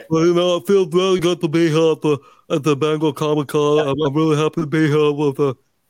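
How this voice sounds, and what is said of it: Imitates another person's voice. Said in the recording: “that's a hell of an impersonation”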